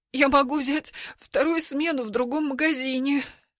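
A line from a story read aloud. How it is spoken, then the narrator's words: Mumbling. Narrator (Russian): мямлю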